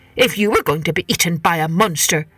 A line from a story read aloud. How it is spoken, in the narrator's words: said the head man crossly